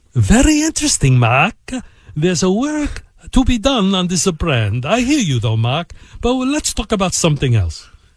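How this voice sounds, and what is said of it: Imitated Italian accent. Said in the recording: “with his unique Italian accent ... Good accent.”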